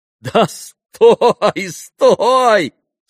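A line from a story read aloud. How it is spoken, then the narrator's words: Laughing. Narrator (Russian): смеялся Иван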